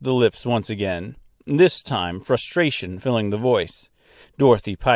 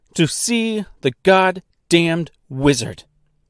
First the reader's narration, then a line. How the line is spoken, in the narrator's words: exclaimed with perfect diction